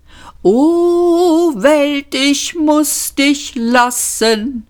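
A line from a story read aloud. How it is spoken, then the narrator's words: Nasal whimper. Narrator (German): wimmerte er nasal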